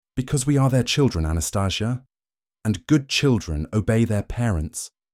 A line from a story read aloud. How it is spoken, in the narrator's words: Celine answered